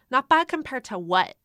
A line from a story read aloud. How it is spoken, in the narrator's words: Karen snapped